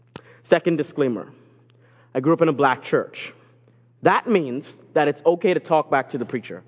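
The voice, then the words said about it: Foreign-accented English. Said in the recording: “I'm from a different country, so you're going to hear an accent ... you're going to hear an accent”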